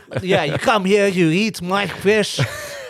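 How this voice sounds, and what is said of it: Put-on Quebec French accent. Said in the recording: “This is the worst Quebec accent ... It was the best Quebec ... kind of like a mix with French”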